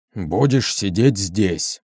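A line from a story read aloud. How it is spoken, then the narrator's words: Gruff grumble. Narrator (Russian): проворчал гном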